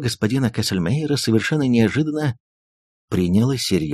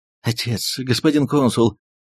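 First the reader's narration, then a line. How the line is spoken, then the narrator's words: Trembling voice. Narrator (Russian): дрожащим голосом произнес он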